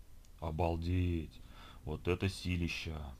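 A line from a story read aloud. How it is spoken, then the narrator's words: Whispered. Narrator (Russian): прошептал Кирилл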